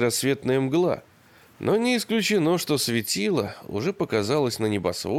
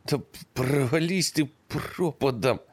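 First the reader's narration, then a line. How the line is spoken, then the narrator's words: Trembling voice. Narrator (Russian): ответил дрожащим голосом Ершон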